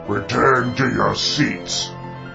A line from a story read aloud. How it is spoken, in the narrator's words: growled the venerable leader